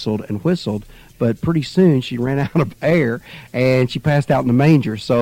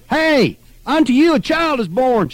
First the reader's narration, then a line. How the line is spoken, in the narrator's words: hollered, as if it was for sure the best news in the world